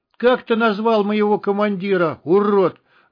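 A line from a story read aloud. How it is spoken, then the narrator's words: Sudden yell. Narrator (Russian): заорал вдруг Буль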